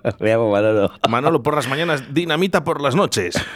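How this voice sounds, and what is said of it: Put-on character voice, Cuban-sounding. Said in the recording (Spanish): “pon voz eh, de Manolo ... Manolo pero es cubano o algo así, porque te ha salido un Manolo”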